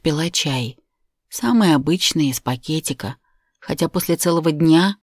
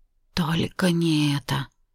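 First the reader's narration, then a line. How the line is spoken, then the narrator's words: Whisper. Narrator (Russian): прошептала я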